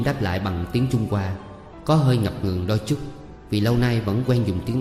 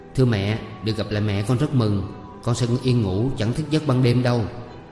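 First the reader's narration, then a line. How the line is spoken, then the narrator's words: Smiling. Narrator (Vietnamese): Diễm mỉm cười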